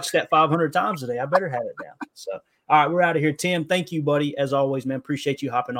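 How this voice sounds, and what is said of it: Usual voice. Nothing is said of it.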